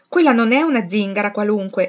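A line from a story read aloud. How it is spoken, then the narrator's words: Exclaimed in chorus. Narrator (Italian): esclamarono tutte insieme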